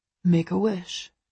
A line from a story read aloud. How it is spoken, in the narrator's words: Christian whispers to me